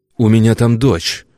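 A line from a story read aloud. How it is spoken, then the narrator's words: Angry interjection. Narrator (Russian): Зло вмешался в разговор, молчавший до сих пор Бежецкий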